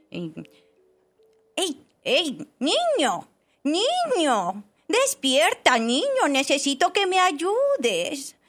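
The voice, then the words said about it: Different character voice. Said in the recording (Spanish): “Tiene otra voz ... hacer la voz de... La Roca”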